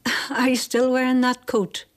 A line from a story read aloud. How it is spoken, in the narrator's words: she would have asked with a short laugh